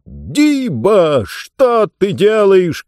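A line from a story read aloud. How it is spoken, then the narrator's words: Shout. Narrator (Russian): крикнул Джонс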